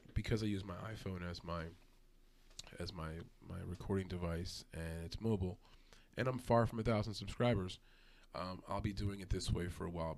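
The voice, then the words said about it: Strained, hoarse voice. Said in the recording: “losing my voice, just doing so much talking tonight”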